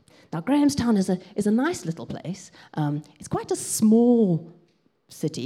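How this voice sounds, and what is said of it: South African accent. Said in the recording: “So I haven't always lived in England. You probably know that already from my accent. Um, I grew up in South Africa”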